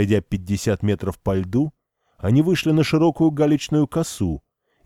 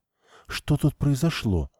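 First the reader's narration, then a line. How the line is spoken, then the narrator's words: Near whisper. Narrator (Russian): почти прошептала Лариса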